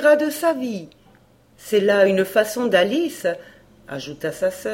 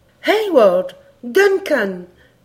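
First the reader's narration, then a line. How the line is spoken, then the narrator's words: Exclaiming. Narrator (French): s'écria Alice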